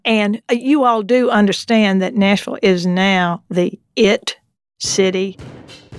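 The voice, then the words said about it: Strong Southern US accent. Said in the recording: “I'm going to put on my most Southern accent now. ... I'm going to put on my most Southern accent here.”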